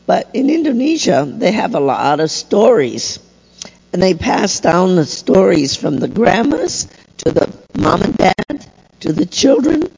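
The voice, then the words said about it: Voice in poor condition. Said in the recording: “my voice is so bad today”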